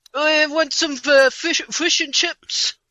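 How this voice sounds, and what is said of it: Put-on New Zealand accent. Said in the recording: “I can do a good New Zealander.”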